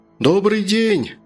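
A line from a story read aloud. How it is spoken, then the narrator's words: Shout into fog. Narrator (Russian): крикнул доктор в туман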